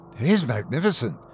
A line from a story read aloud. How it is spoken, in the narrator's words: breathed